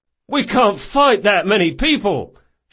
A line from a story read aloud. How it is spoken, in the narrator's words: shouted someone in the crowd